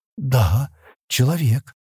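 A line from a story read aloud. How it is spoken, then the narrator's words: Trembling voice. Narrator (Russian): дрогнувшим голосом проговорила Кирана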